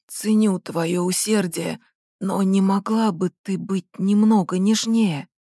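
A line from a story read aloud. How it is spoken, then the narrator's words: Hoarse request. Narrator (Russian): хрипло попросил он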